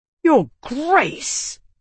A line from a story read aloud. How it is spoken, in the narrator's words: Calix hissed